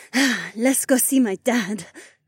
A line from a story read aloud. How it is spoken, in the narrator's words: Heiwan added, and her voice wavered with just the slightest hint of nerves